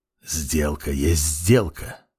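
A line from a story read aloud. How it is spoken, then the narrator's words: Whisper from behind. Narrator (Russian): прошептал голос за спиной темной кисти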